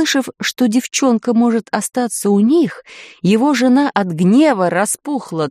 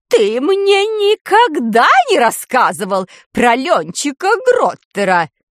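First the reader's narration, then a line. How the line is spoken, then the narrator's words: Angry shriek. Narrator (Russian): гневно взвизгнула она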